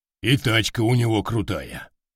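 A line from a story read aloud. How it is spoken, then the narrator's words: Envious grumble. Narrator (Russian): проворчал завистливый Жбан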